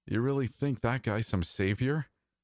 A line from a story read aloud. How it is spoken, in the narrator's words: Shen chuckled